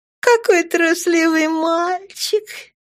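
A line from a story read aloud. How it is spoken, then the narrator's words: Purring. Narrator (Russian): промурлыкала светлая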